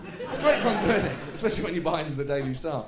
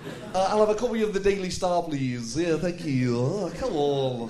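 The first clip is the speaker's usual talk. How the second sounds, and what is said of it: Ed Miliband impression. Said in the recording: “I can do an Ed Miliband impression. I'm doing it everywhere.”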